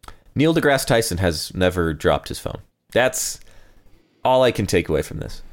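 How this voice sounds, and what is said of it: Usual voice. Nothing is said of it.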